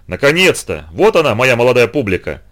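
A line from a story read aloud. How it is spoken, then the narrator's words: Shout, feigned good nature. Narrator (Russian): закричал он притворно добродушным тоном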